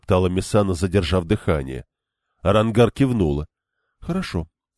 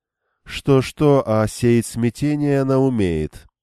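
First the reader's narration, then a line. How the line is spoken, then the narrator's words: Drawled. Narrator (Russian): протянула Семирак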